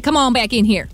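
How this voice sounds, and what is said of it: Put-on farmer voice. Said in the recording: “in your farmer voice.”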